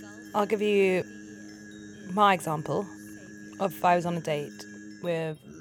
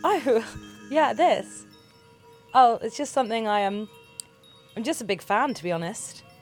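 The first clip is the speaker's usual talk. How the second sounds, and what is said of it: Different accent for second character. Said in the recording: “I'm going to be both people on the date in this situation, so I'll do a change of accent”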